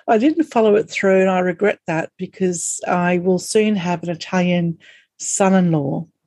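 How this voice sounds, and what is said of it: Broad Australian accent. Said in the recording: “we're Australian and we have this really strawny accent”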